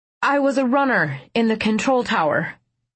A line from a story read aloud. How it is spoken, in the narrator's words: I blurted